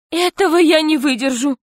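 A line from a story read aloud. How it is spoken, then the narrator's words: Exclaiming. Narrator (Russian): воскликнула настоящая Алла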